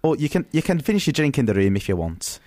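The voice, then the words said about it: Poor put-on Northern English accent. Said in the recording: “That was a terrible Northern accent. That came up more Scouse. ... more Scouse than Teesside.”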